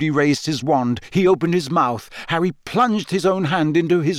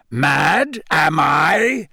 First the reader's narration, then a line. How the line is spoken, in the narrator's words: said Moody, his voice rising uncontrollably